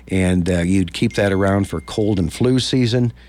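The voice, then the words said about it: Voice a little off from cold. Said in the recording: “I'm kind of nursing a cold right now. My voice is a little off.”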